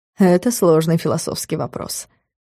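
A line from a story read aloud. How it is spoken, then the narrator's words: Wry snort. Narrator (Russian): хмыкнул Влад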